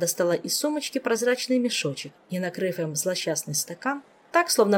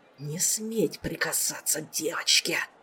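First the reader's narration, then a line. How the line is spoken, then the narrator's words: Ushabti hissing. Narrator (Russian): прошипел ушеб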